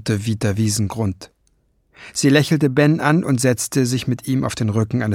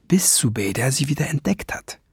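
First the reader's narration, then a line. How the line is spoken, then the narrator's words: Low murmur. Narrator (German): raunte sie dem Jungen zu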